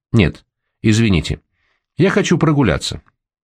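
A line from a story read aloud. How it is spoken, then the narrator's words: Sharp. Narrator (Russian): резко сказал он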